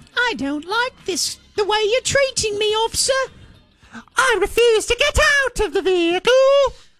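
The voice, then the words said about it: Put-on British accent. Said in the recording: “randomly breaks into a British accent?”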